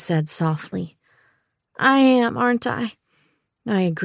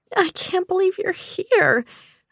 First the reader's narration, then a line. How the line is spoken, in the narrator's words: I said, my voice breaking